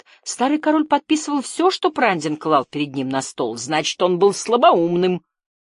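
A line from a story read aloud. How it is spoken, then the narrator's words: Snapping retort. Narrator (Russian): огрызнулся Криан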